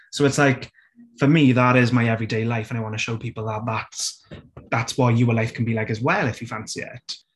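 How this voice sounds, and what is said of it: Strong Welsh accent. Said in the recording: “I've always been proud to be Welsh ... my accent is very, very prominent. Like, you know, can't miss me from a mile away.”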